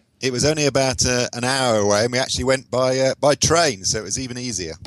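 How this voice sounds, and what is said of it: British accent. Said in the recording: “from your accent, I can tell that you live in the UK”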